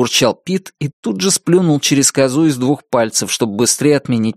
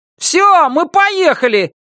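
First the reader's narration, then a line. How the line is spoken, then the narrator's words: Shout. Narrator (Russian): крикнул Норми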